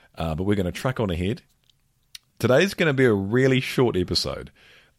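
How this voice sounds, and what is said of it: Unusually deep voice, sounds congested. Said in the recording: “As you can probably hear, my voice is particularly deep today. I have another cold.”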